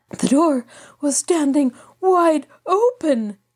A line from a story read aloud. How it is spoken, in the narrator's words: Johann panted